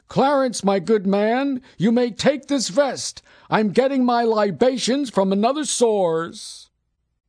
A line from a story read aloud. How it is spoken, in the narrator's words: hollered to his chauffeur